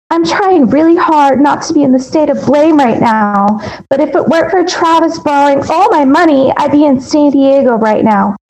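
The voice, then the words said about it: Imitates another person's voice. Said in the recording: “I'm gonna do my best Jodi voice.”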